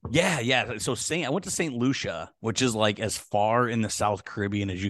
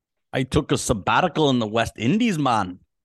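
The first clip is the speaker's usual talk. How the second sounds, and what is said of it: Put-on unidentified accent. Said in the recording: “I don't know what accent that was”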